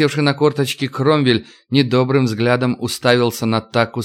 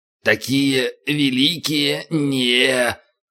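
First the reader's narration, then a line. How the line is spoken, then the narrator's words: Drawling ogre. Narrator (Russian): протянул людоед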